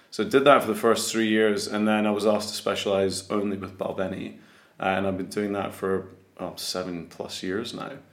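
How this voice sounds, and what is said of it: Mild, toned-down Scottish accent. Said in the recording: “My, my accent, as you can hear, is not, not very thick uh, Scottish ... I sort of tone my accent down so every, everybody can understand me”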